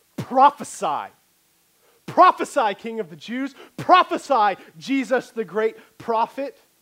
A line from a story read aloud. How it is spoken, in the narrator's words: yelling at him in jest